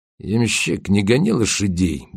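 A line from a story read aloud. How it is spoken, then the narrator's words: Gruff mutter. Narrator (Russian): буркнул Кречет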